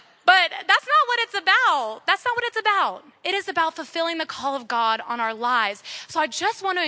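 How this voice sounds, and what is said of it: Usual voice. Nothing is said of it.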